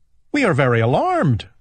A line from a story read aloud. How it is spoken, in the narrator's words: they cried